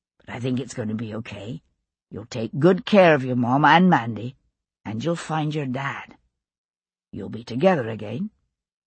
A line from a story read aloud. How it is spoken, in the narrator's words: he said softly